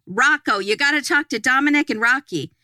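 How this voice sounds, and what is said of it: Put-on Italian-American accent. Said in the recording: “she doesn't talk like this at all. I don't know why I'm doing that accent ... she's not even that Italian”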